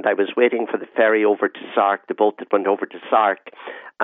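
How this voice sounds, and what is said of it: Irish accent. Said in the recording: “she noted my accent and said, "Oh, you're certainly not from the Channel Islands or indeed Great Britain." ... I'm Irish.”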